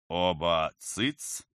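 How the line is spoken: Barking, stern. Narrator (Russian): рявкнул равнин, сдвинув брови

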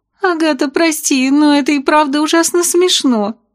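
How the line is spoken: Muffled giggle. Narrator (Russian): прикрыв рот ладошкой, хихикнула Сильфида

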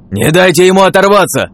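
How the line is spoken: Shout from behind. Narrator (Russian): Крикнул кто-то за спиной

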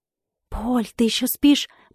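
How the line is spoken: Whisper. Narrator (Russian): прошептала сестра

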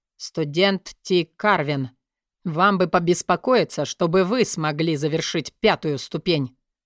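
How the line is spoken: Cold. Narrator (Russian): Холодно ответил Терренс

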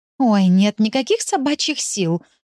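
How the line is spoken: Sighing. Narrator (Russian): вздохнула Тенька

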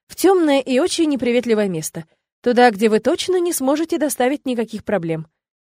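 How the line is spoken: Cheerful imitating announcement. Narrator (Russian): радостно заявил домовичок, явно копируя слова ректора

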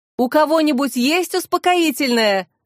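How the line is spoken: Shouted. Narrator (Russian): закричал вице-губернатор

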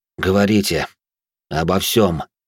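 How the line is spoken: Weary. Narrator (Russian): устало произнес я

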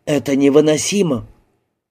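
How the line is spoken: Distant whisper. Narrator (Russian): Стоявшая в отдалении Джинни прошептала

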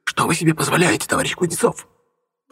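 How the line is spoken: Hiss. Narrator (Russian): прошипела она

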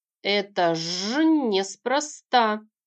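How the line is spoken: Drawn-out agreement. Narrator (Russian): протянул согласную же Рюк

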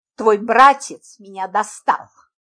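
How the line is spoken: Angry. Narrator (Russian): Зло произнес он

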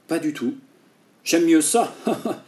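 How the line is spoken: Laughing. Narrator (French): dit en riant

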